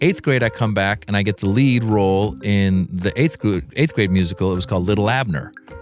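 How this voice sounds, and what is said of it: Usual voice. Nothing is said of it.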